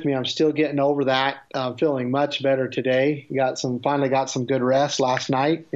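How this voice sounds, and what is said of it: Slightly nasal, congested voice. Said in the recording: “I've had a pretty extreme cold ... I sound a little nasally”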